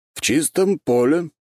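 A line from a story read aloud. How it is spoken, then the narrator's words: Plain. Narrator (Russian): ответил Карачаров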